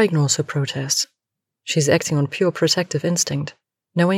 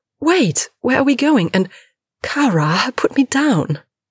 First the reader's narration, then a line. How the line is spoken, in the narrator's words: shrieking